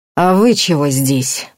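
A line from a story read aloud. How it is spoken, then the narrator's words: Through gritted teeth. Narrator (Russian): процедил охотник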